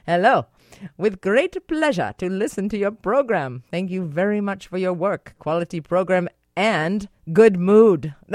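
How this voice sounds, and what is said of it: Put-on Ukrainian accent. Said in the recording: “I might actually break out into a Ukrainian accent.”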